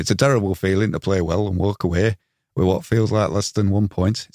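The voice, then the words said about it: Put-on Yorkshire accent. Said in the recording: “I'm going to do it in a Yorkshire accent”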